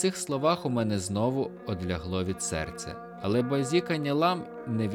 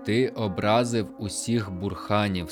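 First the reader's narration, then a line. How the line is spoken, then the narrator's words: Plain. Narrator (Ukrainian): сказав він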